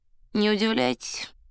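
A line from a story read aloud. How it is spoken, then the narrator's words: Bored peasant's voice. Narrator (Russian): скучным голосом промолвил странный крестьянин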